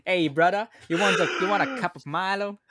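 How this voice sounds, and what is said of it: Attempted Australian accent, sounds Italian. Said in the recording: “Can you do it in an Australian accent? ... That sounds Italian. That's not Australian, no. ... That voice was a bit flat”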